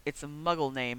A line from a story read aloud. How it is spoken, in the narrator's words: he muttered